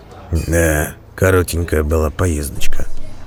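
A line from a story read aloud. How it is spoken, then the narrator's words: Whispered. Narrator (Russian): шепнул Бреннер Дзирту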